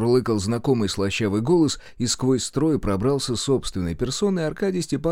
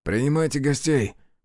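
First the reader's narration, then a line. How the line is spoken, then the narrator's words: Amused grunt. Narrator (Russian): хмыкнул подошедший Карпин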